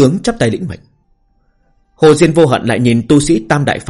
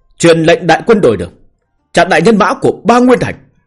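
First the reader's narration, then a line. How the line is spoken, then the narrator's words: Shouting command. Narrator (Vietnamese): Hồ Diên Vô Hận hò hét nói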